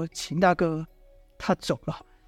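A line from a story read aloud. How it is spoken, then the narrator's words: Sighing. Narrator (Chinese): 王离叹了口气，摇摇头说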